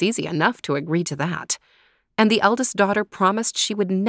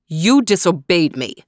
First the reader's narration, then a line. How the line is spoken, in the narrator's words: thundered